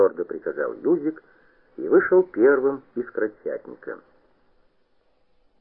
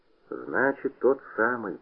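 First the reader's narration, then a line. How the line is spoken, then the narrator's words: Thoughtful. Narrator (Russian): задумчиво сказал Куница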